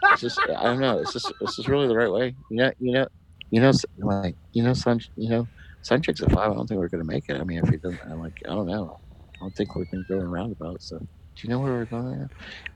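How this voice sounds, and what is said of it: Muttered under-breath imitation of someone. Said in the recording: “she'll start questioning things under her breath ... my Ivana Nova impression”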